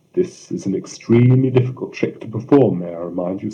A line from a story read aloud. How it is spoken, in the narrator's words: said Borgia